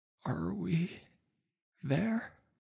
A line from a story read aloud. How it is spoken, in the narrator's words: Marcino asked, chest wheezing with every word